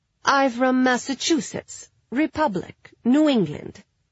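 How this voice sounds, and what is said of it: Mock Ukrainian accent. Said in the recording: “doing the other girl's accent ... You from Ukraine too?”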